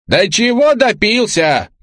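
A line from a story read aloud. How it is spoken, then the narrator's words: Wife shouting. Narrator (Russian): кричала жена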